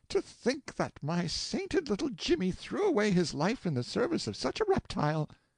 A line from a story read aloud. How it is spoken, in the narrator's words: their mother, who burst into tears and exclaimed